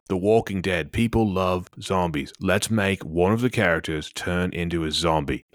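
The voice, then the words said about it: Put-on Australian accent. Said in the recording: “That's more of an Australian accent.”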